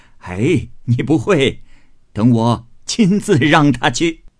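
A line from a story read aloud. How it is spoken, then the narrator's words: Laughing. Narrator (Chinese): 贾母笑道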